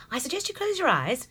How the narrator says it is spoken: she said in a very sprightly tone

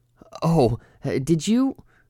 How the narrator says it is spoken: Cordelia laughed a bit too loudly

